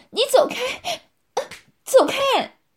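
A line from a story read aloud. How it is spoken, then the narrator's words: Panicked shout. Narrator (Chinese): 少涵惊慌失措，马上叫道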